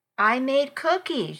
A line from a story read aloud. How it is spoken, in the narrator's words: she said